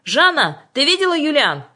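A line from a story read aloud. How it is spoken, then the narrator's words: Shouted. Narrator (Russian): закричал ей Мишин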